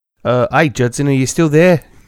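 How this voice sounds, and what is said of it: Put-on New Zealand accent. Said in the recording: “Did you move to New Zealand already? ... I'm just working on the accent. ... Pretty good.”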